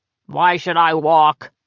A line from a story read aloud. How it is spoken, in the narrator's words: thundered